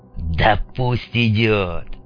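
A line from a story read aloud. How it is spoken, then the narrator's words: Fed-up growl. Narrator (Russian): рыкнул Мунлайт, которому все это порядком надоело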